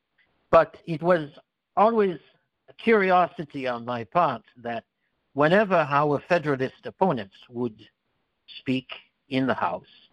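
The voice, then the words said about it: Speaks with a noticeable accent. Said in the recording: “you can hear that I have an accent. Some would call it a speech impediment.”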